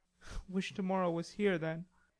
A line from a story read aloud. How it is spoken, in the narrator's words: muttered Laurie, ill-pleased at the change he saw in her